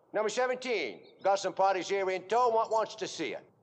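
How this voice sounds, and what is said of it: Unconvincing put-on English accent. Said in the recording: “Dick Van Dyke's English accent. Okay, I admit it. It's not very good.”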